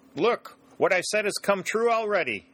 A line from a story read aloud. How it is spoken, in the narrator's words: shouted the sergeant